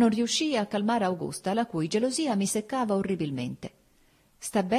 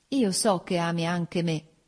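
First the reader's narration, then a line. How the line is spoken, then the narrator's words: Plain. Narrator (Italian): disse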